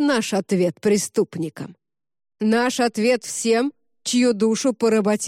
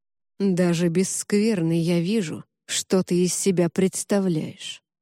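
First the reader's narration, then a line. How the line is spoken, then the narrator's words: Quiet, disgusted. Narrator (Russian): негромко и с отчетливым отвращением в голосе произнес разрушитель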